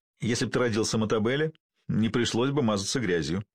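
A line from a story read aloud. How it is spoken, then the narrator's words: Giggling. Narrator (Russian): хихикнул Базу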